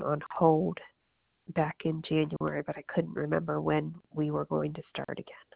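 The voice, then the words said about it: Congested, sick-sounding voice. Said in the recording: “I sound so gross. I have a bad cold.”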